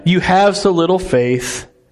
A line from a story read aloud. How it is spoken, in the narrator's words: Jesus said